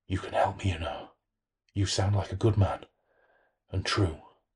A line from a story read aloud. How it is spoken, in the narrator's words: the voice whispered